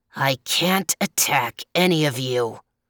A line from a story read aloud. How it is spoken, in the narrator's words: snarled the leopard